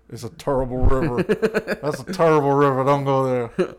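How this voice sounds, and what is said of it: Imitates another person's voice. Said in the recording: “You do a good Charles Barkley impression.”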